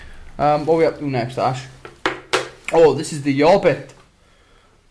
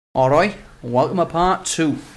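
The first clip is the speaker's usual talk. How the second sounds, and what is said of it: Put-on Cardiff accent. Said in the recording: “That's my best Cardiff City accent there.”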